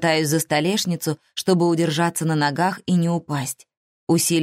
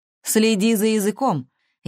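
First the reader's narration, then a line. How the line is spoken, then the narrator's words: Cold, dispassionate. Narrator (Russian): Я стараюсь говорить бесстрастно и холодно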